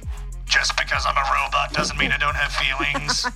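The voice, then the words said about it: Robot character with American accent. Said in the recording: “why do I have an American accent all of a sudden?”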